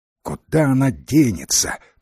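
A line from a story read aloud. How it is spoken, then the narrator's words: Grumbling. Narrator (Russian): проворчала Фея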